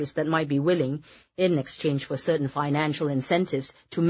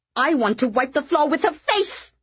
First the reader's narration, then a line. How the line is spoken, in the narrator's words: Kitty screamed